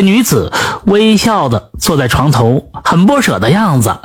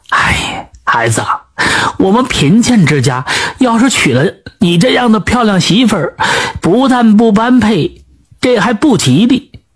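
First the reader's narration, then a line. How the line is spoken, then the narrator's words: Sighing old mother. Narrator (Chinese): 老母亲叹息着说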